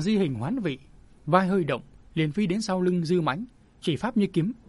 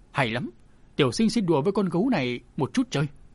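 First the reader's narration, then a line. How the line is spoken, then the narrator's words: Calm, laughing loudly. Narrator (Vietnamese): tiểu thư sinh không hoảng không loạn, miệng cười lớn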